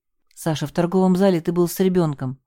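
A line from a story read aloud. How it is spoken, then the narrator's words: Hurried. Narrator (Russian): торопливо начала я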